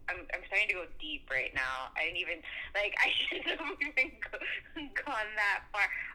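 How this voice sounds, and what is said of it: Nervous, giggly voice. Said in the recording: “you can hear the nervousness in my voice ... it's all, like, giggly and stuff”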